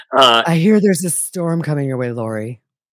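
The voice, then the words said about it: Creepy Hannibal Lecter-like impression of Chad. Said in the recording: “do her Chad voice ... do your Chad voice ... It's almost like Hannibal Lecter, Silence of the Lambs”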